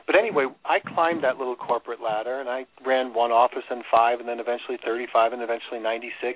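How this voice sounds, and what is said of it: New York accent. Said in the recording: “New York, where I get my accent”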